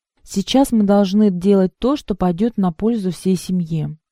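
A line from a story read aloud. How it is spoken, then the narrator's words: Plain. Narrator (Russian): сказала она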